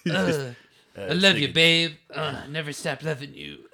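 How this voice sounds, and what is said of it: Weird country singer voice. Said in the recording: “he's doing a kind of weird accent ... He does that kind of weird, like, country singer voice.”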